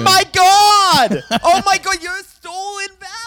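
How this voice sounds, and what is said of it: Yelling. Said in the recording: “stop yelling”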